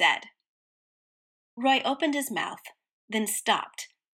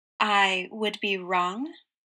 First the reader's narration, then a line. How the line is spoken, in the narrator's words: Roy repeated slowly